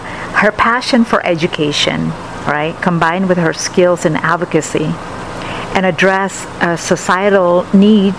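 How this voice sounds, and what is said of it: Speaker's own accented English. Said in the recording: “It's basically much simpler and easier for me to pronounce with my accent here.”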